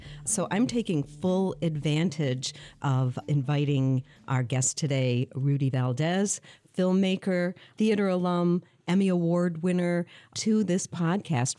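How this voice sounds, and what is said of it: Rich, polished radio voice. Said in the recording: “what a great sort of radio voice you have until I just heard it on these headphones”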